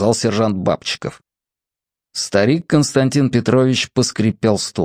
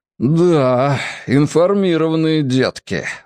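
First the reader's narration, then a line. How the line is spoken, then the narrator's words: Breathless exhale. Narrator (Russian): выдохнул капитан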